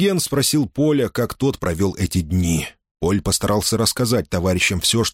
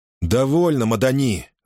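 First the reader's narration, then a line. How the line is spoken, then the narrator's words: Irritated, curt. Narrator (Russian): раздраженно бросил Диану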